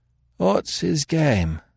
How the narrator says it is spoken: repeated Marks drowsily

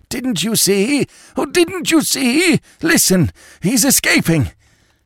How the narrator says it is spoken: who choked out

